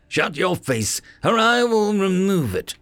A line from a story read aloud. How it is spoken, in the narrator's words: Arana shouted back